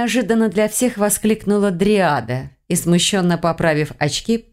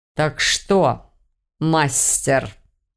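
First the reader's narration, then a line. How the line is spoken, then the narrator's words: Sinister hiss. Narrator (Russian): как-то зловеще прошипел дракон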